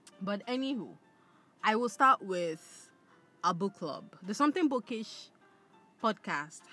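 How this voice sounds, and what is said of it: Usual voice. Nothing is said of it.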